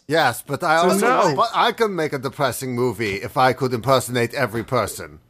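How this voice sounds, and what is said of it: Imitates another person's voice, shifting accent. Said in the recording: “as Werner Herzog ... Why did the accent just change?”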